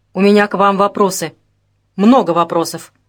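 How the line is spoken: Angry. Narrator (Russian): сердито сказал Вашко

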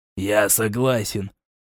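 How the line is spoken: Resigned determined exhale. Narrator (Russian): с обреченной решительностью выдохнул Мишет

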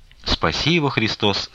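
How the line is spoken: Plain. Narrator (Russian): сказала Манефа

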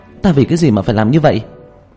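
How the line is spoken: Agitated shout. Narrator (Vietnamese): Vương Bình phản ứng rất kịch liệt, kích động hét lên

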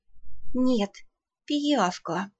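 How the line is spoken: Through gritted teeth. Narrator (Russian): сквозь зубы процедила наемница

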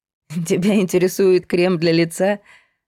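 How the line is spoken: Laughing. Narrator (Russian): засмеялась она

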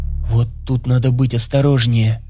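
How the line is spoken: Whisper. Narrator (Russian): шепнула Танька

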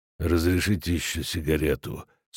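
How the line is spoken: Gloomy question. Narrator (Russian): спросил мрачно доктор

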